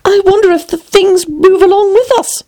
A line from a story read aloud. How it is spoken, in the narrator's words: thought poor puzzled Alice